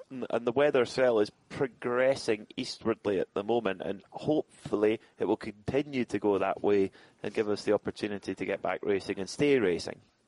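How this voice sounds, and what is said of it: Soft Scottish accent. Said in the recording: “your nice soft Scottish accent”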